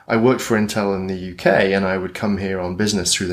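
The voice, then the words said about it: British accent. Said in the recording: “Hence the outrageous British accent.”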